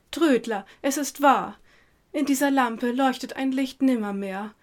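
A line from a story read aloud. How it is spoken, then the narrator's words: Indignant woman's shout. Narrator (German): die zierliche Dame rief empört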